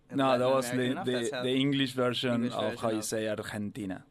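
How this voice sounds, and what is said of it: Argentine-accented English. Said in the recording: “From Argentina ... Listen to that accent ... Great for the audio medium”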